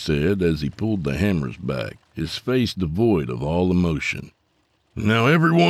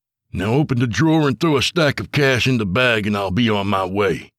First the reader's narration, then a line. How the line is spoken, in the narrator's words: Tony barked